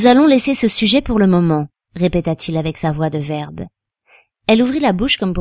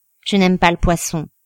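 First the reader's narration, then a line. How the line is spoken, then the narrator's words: Plain. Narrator (French): dit-elle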